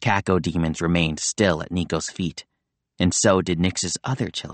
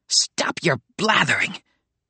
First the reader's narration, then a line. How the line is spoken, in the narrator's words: shrieked Nix